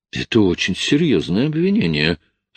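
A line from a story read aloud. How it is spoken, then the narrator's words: Calm. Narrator (Russian): спокойно произнес Марк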